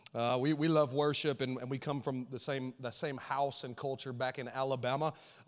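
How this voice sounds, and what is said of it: Alabama Southern accent. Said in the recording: “We're Alabama folks, and so you might hear that in my accent. I had somebody earlier say, that accent.”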